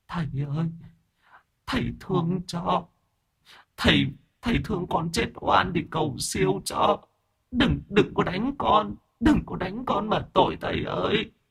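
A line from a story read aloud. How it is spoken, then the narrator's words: Tearful whimpering. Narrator (Vietnamese): ma nữ mếu máo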